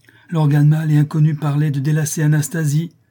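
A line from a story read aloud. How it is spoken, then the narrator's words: Exclaiming. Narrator (French): s'écria-t-il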